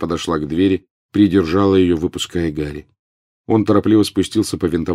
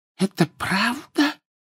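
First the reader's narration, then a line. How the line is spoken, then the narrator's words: Whisper. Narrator (Russian): прошептала полная дама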